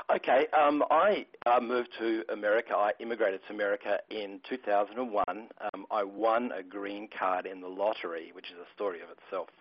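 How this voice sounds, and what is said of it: Australian accent. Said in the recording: “And you're from Australia, right?... You can tell from the accent.”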